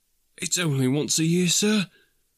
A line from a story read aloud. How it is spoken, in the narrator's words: pleaded Bob